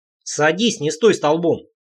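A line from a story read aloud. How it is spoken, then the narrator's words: Pleased snort. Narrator (Russian): Рейнар довольно хмыкнул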